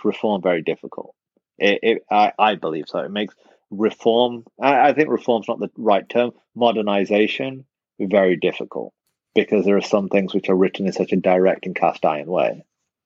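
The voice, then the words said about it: English accent. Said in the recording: “you have an English accent, so you sound smarter than me”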